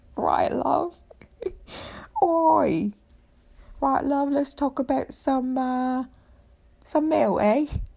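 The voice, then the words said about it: Cockney chimney-sweep accent, Mary Poppins. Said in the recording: “the chimney sweep from Mary Poppins thing going on”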